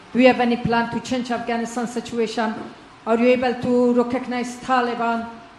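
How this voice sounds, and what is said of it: Strong, hard-to-understand foreign accent. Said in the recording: “it's a beautiful voice and a beautiful accent. The only problem is I can't understand a word you're saying.”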